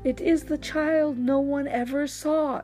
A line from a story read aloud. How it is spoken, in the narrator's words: exclaimed the man